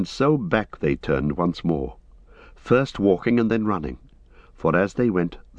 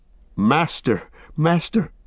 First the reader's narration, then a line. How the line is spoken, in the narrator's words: cried Sam